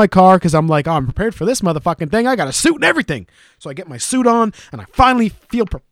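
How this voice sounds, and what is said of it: Usual voice. Nothing is said of it.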